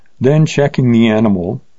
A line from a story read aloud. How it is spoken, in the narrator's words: he said in a mocking tone